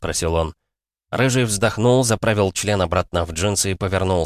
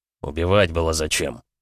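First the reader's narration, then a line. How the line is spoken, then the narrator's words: Cold, through teeth. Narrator (Russian): холодно процедил он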